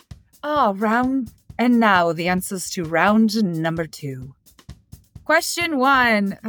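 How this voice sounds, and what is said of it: Weak attempt at English accent. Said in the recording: “I was going to do an English accent and I lost it again ... That's terrible.”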